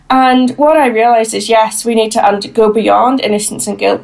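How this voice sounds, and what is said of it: Northern Irish accent. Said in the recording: “as you can tell, I'm sure from my accent, I live and work in Northern Ireland”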